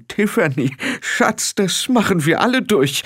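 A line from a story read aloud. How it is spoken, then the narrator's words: Trembling voice. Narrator (German): sagte sie mit zittriger Stimme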